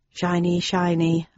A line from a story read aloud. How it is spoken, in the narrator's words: I muttered